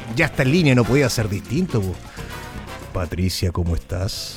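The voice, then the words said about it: Exaggerated radio announcer voice. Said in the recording (Spanish): “Con la voz de locutor,”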